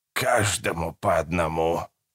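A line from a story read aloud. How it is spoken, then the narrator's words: Hoarse rasp. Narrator (Russian): прохрипела она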